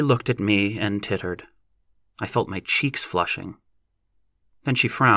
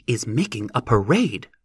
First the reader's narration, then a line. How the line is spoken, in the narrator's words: snapped Lossie